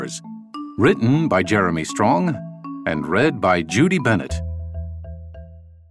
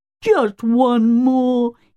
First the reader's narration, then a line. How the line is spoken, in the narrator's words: he pleaded